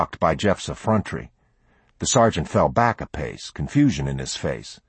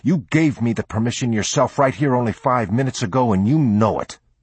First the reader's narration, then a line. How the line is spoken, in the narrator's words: he said hotly